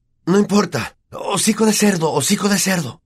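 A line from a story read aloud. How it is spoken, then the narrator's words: Panting. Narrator (Spanish): jadeó Harry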